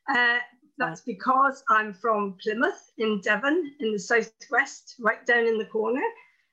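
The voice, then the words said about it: English accent. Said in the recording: “I know you're in England. I can hear from your accent”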